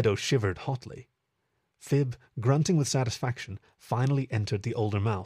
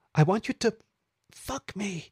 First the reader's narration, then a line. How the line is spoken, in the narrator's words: breathed